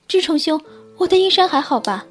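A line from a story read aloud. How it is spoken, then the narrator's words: Startled shout. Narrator (Chinese): 惊得急忙大喊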